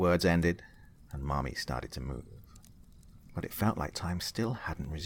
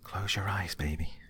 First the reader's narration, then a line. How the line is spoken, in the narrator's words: his mommy whispered into his ear